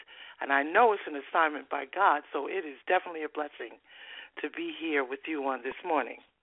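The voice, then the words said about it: Eastern US New Jersey accent. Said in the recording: “I can hear that you and, excuse me, ... have that Eastern accent. ... you told me this was in New Jersey”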